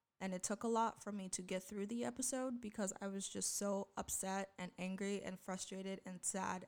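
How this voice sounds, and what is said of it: Emotionally strained, upset voice. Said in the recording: “You can clearly tell by my voice that it was a lot”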